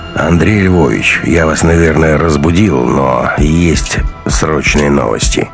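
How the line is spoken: Grim. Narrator (Russian): мрачно сказал генерал

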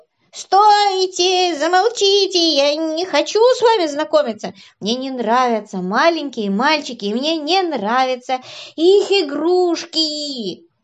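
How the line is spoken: Interrupting shout. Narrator (Russian): Ворчун перебил их и закричал

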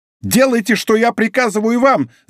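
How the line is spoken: Shout. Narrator (Russian): закричал комиссар

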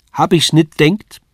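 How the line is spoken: Calling out. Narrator (German): rief

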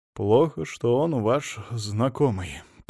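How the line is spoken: Sighing. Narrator (Russian): пожевав губами, Моисей Соломонович вздохнул

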